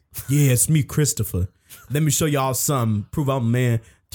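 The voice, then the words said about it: Put-on tough voice. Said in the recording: “I had to put on my tough voice.”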